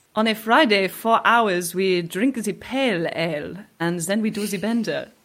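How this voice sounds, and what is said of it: Mock French accent. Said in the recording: “some really chic French people ... Sounds a bit saucy in that accent.”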